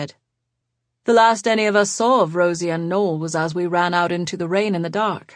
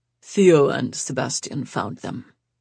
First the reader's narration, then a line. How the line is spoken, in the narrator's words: Peter said quietly